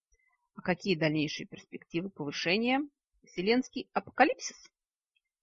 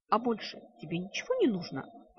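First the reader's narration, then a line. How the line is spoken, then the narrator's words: Hissing. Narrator (Russian): прошипела Лада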